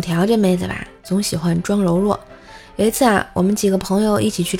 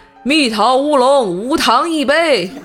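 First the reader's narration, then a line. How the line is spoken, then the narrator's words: Shouting to the back. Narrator (Chinese): 老板对后面的人喊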